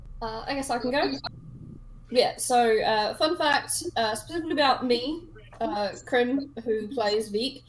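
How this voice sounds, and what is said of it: Acquired British English accent. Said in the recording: “I actually use this accent in my everyday life. I have no heritage, nor have I ever been to the UK or any English country. I just watched a lot of British comedy when I was growing up, and it sort of stuck. So this is completely fake.”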